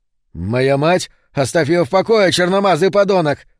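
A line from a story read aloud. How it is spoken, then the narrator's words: Almost shouting. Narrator (Russian): Он почти кричал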